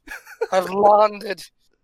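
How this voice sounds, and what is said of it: Put-on accent, possibly Irish. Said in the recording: “what this accent that is coming out of me that I've been repressing ... Are you turning into Irish now?”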